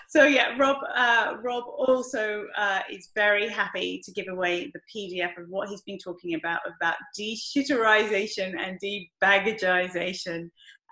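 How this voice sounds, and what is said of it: British accent. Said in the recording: “my lovely British accent”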